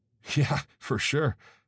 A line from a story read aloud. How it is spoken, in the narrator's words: I chuckled nervously